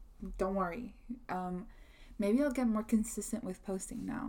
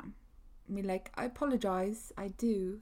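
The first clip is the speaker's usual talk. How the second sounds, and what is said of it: Bad put-on British accent. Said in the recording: “That was a really bad British accent.”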